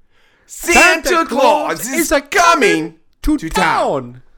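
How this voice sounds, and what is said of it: Gilbert Gottfried impression, high screaming voice. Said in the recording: “That was your Gilbert Gottfried... Gilbert Gottfried has a very high voice, and he screams a lot. My throat hurts now. My vocal cords are strained.”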